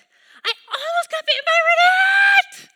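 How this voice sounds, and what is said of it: Screaming child's voice. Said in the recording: “why are you screaming”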